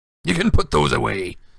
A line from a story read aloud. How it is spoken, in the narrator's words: he growled